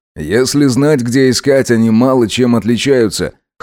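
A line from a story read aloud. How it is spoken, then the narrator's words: Excited scoff. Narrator (Russian): хмыкнул Макс, даже немного возбудившись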